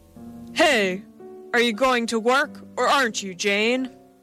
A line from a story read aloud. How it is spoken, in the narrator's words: a voice boomed